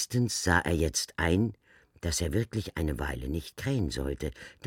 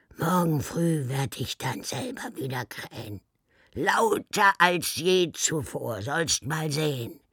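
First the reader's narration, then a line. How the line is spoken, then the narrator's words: Hoarse muttered croak. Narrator (German): krächzte er heiser vor sich hin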